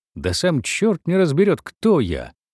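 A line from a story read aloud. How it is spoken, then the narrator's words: Thin laughing voice. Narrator (Russian): говорил он уже тонким голосом, уже смеясь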